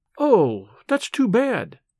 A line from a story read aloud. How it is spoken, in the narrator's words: she exclaimed